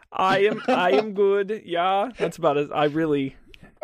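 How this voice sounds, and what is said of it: Put-on German accent. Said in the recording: “Do you want me to do a German accent? ... He's German. Yeah. He has to have an accent.”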